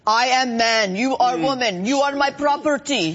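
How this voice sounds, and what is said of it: Put-on Russian-sounding accent. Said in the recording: “Very good Roman accent ... Apparently Rome was Russia.”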